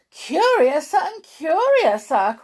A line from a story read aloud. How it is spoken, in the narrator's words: cried Alice